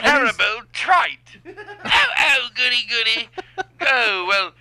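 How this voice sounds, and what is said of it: Bad put-on British accent. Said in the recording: “That British accent was bad.”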